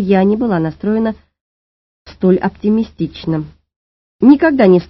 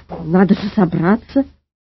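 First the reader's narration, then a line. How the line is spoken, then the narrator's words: Mumbling. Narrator (Russian): начал мямлить полковник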